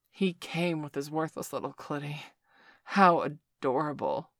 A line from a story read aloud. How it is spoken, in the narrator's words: Victor groaned, his own cock swelling with excitement as he felt his orgasm mounting